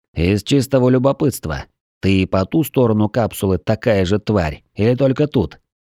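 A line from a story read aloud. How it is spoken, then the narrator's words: Perfectly calm question. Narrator (Russian): Совершенно спокойно спросил я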